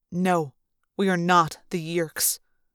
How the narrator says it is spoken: he said coldly

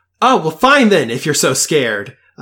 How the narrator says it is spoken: shouts

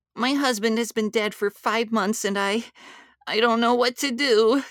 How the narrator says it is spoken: wailed

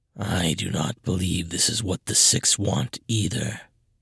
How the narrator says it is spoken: the Black Phasm said, his voice low but clear

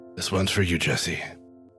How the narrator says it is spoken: Arthur says under his breath

